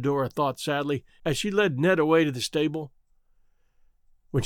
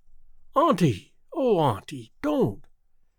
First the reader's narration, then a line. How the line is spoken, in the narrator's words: exclaimed Theodora impulsively